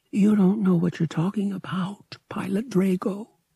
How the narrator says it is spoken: she said softly

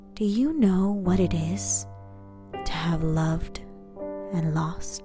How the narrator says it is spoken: the woman said in an airy, angry voice

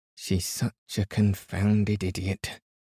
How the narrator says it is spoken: muttered Tackleton

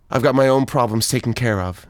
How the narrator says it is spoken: said

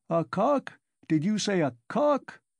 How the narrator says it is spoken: shouted the commissariat clerk

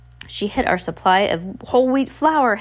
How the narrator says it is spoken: Hector cried

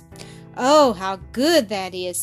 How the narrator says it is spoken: exclaimed

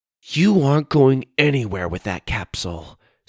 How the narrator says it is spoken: Suzie said through her teeth

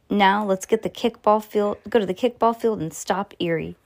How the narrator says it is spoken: said Lucy

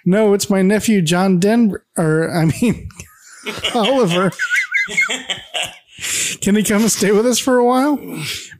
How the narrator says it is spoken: Carol giggles again and says

